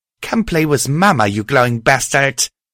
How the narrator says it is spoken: The creature howled

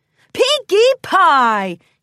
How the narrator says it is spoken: he shouted back

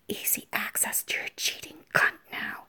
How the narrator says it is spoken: whispered

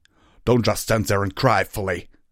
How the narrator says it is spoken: roared

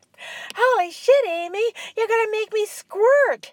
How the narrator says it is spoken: Amy screamed

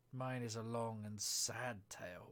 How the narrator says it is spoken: said the mouse, sighing

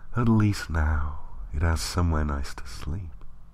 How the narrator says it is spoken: she murmured

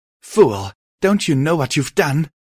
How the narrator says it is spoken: She cried out

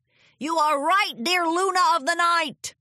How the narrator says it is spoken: Zecora the zebra called out

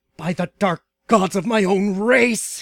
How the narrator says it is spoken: he cried in anger

